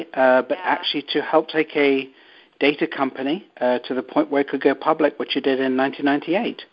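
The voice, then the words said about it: English accent. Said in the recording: “where is your accent from? ... it's English.”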